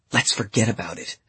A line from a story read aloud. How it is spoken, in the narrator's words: they whispered